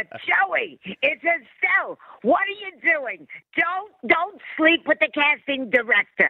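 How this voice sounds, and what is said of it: Raspy whiskey-voiced old Brooklyn Estelle. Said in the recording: “it's a whiskey. It's a, you know, she takes a little shot of whiskey before she goes to bed and smokes 100 cigarettes a day ... it's that old Brooklyn... You know, babe”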